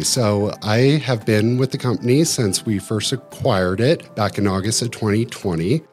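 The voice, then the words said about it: Polished radio-style voice. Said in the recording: “I like your radio voice.”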